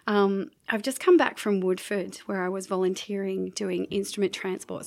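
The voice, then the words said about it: Sick-sounding voice. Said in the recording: “excuse my voice, I'm recovering from a flu”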